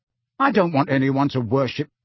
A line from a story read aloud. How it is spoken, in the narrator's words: Harry began hotly